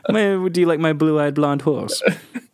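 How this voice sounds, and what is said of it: Put-on German accent. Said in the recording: “I tried to do that in a German accent.”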